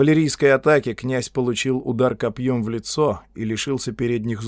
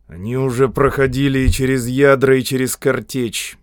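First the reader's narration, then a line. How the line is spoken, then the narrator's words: Grumbling. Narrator (Russian): проворчал Додд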